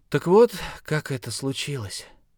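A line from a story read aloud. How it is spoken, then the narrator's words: Heavy sigh, then speaking. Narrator (Russian): Джо тяжело вздохнул и сказал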